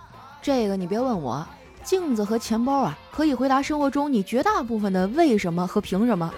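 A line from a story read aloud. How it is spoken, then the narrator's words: Faint smile. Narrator (Chinese): 小黑淡淡一笑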